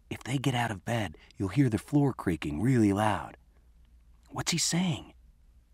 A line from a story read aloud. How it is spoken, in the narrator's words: I whispered